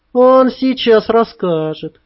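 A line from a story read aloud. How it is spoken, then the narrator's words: Mocking girl. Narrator (Russian): насмешливо заметила одна из девчонок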